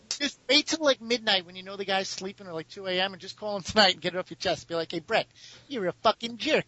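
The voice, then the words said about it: Brooklyn accent, like Bugs Bunny. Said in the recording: “you have the Brooklyn accent there, you sound a little like Bugs Bunny when you said that”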